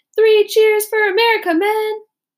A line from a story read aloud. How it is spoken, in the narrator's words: one of the officers shouted